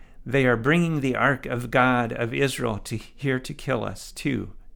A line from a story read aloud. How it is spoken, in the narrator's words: they cried out